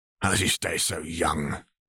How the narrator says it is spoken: Gilbert grumbled enviously

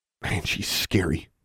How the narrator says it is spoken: whispered David

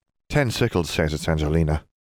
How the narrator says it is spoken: Seamus muttered

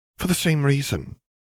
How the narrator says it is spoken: Cassiopeia huffed impatiently

